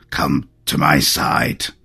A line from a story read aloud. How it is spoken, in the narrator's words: Phusaelus rasped